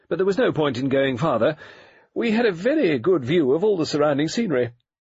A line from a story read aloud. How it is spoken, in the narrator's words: said Lady Westholme firmly